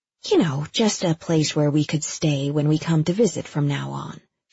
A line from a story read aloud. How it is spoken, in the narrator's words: she said